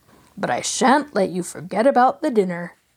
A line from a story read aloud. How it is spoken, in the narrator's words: Black teasingly